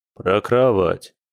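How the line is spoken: Snort. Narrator (Russian): хмыкнул он

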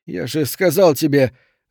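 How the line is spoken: Strained, forced out. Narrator (Russian): выдавил он

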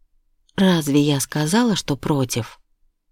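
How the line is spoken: Sighing. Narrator (Russian): Я вздохнула

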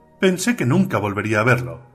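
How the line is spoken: Exclaimed. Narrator (Spanish): exclamó

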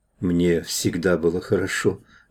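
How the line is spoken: Low velvety female voice. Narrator (Russian): говорила невидимая женщина, обладавшая низким грудным голосом приятного бархатного тембра

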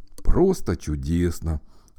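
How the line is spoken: Breathed out, bear cub. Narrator (Russian): выдохнул медвежонок

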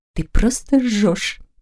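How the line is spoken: Private whisper. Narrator (Russian): прошептала Анна, повернувшись так, чтобы никто, кроме их уголка, ее замечания не услышал

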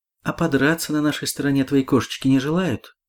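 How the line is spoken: Plain. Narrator (Russian): спросила Ольга

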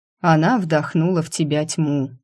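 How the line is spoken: Weary father. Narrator (Russian): устало произнес отец

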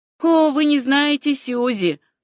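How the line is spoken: Tense laughing reply. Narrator (Russian): ответила девушка и как-то напряженно засмеялась

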